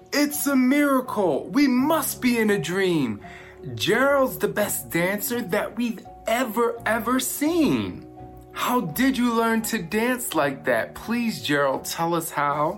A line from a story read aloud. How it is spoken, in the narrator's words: They shouted